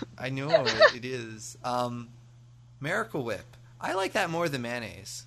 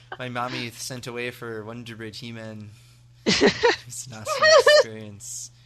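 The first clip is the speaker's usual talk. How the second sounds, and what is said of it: Little kid voice, Canadian-sounding accent. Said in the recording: “Was that some kind of Canadian accent? ... A boot. ... I'm a little kid”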